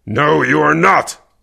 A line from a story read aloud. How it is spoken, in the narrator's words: Kervek growled